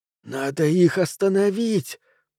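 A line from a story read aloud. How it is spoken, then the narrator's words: Hissed. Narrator (Russian): прошипел Боб Майку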